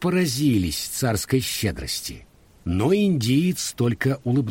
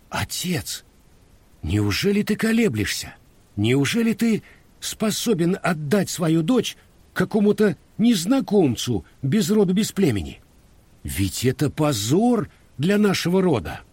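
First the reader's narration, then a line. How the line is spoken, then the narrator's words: Heated indignant exclamation. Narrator (Russian): принц Фируси, наследник престола, покраснел от негодования и, видя нерешительность шаха, горячо воскликнул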